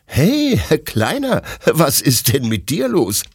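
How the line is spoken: Laughing question. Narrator (German): fragt Detlef lachend

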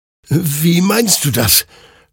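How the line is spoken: Confused stammer. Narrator (German): stammelte Hector verwirrt

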